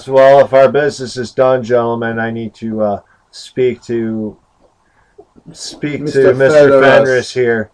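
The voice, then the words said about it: Put-on Austrian accent. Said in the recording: “He has an accent. He's an Austrian accent now.”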